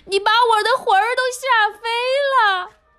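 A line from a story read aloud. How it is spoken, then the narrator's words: Frail old woman crying out. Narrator (Chinese): 瘦小的老妇人喊起来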